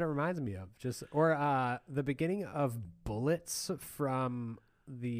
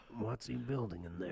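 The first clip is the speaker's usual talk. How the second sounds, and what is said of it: Gravelly, raspy imitated singer's voice. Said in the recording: “Just gargling ... Gargling asphalt and razor blades, and just going, washing it down with whiskey ... my Tom Waits impression ... That's pretty good.”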